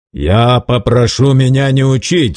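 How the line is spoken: Angry, curt. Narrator (Russian): злобно отрезал Герут

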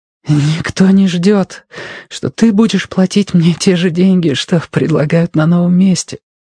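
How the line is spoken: Hoarse. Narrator (Russian): хрипло проговорила Робин

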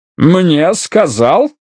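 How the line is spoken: Snorting. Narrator (Russian): фыркнул

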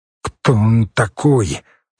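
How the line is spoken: Forced out words. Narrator (Russian): выдавил хорь

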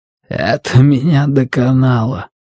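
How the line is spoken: Hoarse, strained, head down. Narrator (Russian): хрипло выдавил Даффилд, не поднимая головы

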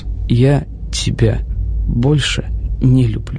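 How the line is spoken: Very quiet. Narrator (Russian): Очень тихо Джерри произнес

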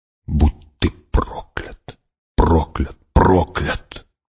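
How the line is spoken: Whispered curse. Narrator (Russian): прошептала она

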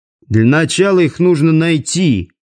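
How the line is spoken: Grumble. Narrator (Russian): проворчал Димка

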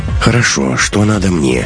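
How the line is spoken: Weary question. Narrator (Russian): устало спросил Лекс

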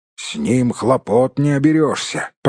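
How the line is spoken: Grumbling dwarf. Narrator (Russian): проворчал кто-то из гномов

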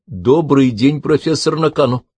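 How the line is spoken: Booming, echoing. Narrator (Russian): Голос Габриэля, казалось, прогремел под сводами древнего храма

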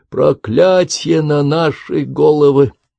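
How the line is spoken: Groan. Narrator (Russian): простонал он

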